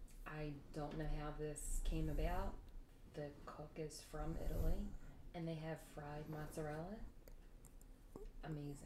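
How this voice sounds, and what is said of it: Philadelphia accent. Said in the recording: “You have such a Philadelphia accent when you speak.”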